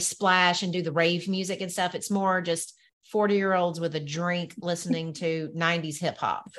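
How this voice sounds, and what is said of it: Southern American accent. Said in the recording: “I butcher everything with my Southern accent.”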